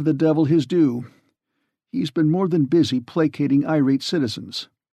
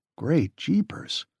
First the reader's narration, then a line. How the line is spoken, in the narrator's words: he said in an awed tone